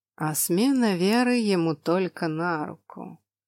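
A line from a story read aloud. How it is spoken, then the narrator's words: Sly drawl. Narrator (Russian): с прищуром протянул Роналд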